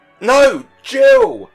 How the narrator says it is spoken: cried both the parents

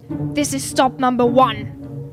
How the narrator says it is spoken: old Grinch claws hissed

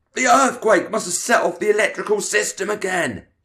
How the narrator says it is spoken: he shouted

